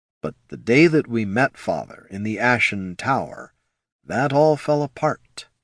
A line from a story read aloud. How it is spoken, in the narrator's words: he said softly